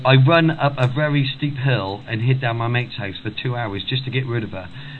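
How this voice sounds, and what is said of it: Welsh accent. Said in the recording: “You have a Welsh accent? ... it's a Welsh accent, but I'm not very, very Welsh anymore”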